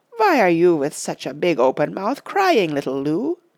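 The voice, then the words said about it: Strong German accent. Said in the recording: “with a strong German accent.”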